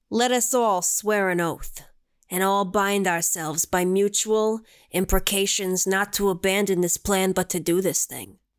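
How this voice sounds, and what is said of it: Put-on mob boss accent. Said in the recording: “I feel like I have to do it in a mob accent”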